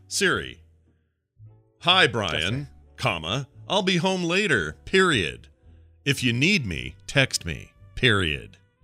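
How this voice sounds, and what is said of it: Sports announcer style dictation voice. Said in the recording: “So you really do it like you're announcing the Baltimore Orioles game.”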